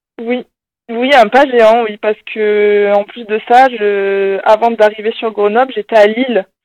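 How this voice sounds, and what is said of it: Slight singsong southwestern French accent. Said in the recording (French): “on entend quand même un petit accent, là ... je suis originaire du sud-ouest, c'est pour ça que j'ai un petit accent qui chante, qui revient de temps en temps ... Du Lot-et-Garonne”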